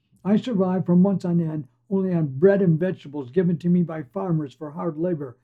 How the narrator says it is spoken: yells another

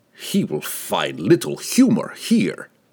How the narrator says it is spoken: the guildmaster said with a venomous chuckle

